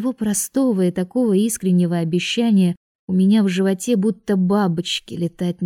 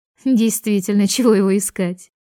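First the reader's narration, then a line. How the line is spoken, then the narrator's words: Giggle. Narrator (Russian): хихикнула Изабель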